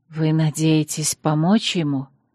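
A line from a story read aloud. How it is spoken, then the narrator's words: Quiet question, female werewolf. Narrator (Russian): тихо спросила оборотница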